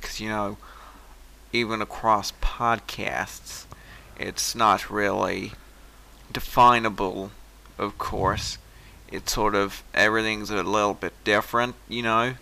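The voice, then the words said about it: Poor stereotypical American accent attempt. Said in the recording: “my ordinary, stereotypical, I should say, rather than ordinary, American accent ... just slipping to Australian there. That just sounded Australian. That was actually quite terrible”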